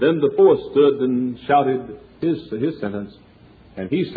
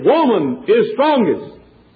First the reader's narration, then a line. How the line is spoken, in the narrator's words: And he shouted again